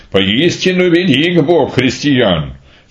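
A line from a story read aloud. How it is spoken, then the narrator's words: Exclaimed, king. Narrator (Russian): царь воскликнул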